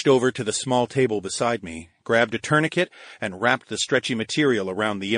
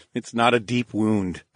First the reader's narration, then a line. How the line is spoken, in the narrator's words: chuckled